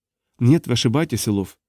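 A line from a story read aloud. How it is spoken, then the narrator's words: Quiet female voice. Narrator (Russian): тихо проговорила она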